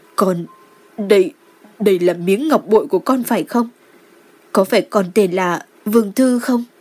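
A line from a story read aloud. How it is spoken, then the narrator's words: Trembling voice. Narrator (Vietnamese): Đường Lộ Di run rẩy nói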